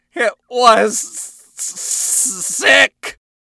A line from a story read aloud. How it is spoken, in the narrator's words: Vox stammered